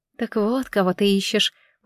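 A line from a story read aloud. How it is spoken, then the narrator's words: Surprised mutter. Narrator (Russian): удивленно пробормотала Фламинго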